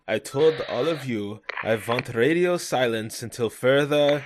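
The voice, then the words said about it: Put-on German accent. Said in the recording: “I'm gonna attempt a German accent.”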